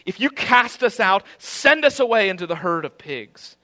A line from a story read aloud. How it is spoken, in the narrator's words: the demons begged him, shuddering at him, saying